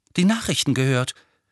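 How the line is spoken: Resigned voice. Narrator (German): sagte Harry mit resignierter Stimme

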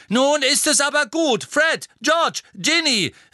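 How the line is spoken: Call out. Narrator (German): rief Mrs

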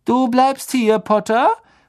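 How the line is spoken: Called out. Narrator (German): rief Malfoy

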